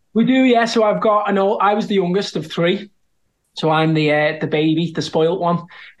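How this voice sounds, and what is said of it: Scouse Liverpool accent. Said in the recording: “anyone who hears your accent knows you're a Scouser.”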